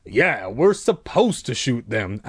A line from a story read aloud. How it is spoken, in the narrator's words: Uncle Al replied coldly